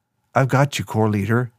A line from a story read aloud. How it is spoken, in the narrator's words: Nick said